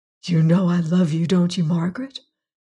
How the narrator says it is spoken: said hoarsely over and over with a sort of fierce intensity

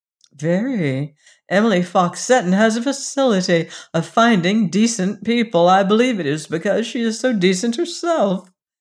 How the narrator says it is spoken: with a little laugh

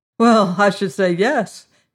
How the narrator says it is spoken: he laughed

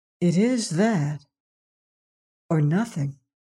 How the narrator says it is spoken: she added gravely

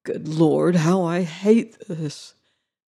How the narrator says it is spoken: groaned the harvester

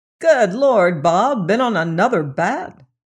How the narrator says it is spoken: cried Pope at sight of his caller

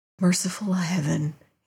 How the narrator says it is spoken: he muttered

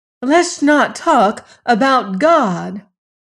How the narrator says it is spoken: cried Lorelei

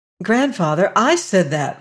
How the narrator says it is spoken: cried the girl

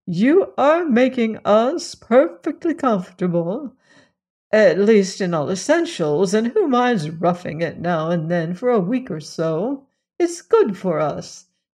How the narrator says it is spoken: she added playfully

